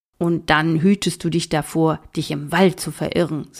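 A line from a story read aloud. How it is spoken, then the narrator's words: Plain. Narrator (German): sagte Mattis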